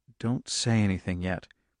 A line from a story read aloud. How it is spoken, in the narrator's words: he muttered